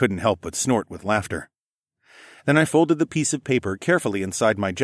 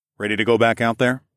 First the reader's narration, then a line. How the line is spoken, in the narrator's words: I asked